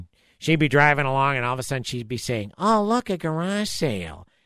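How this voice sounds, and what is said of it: Imitates another person's voice. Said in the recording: “my best Louie impersonation”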